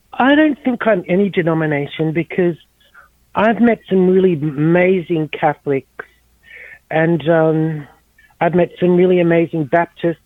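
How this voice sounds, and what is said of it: Australian accent. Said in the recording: “You have a beautiful accent. I love Australian accents.”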